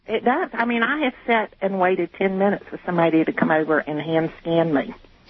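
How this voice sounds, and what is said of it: Southern US accent. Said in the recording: “I love your southern accent.”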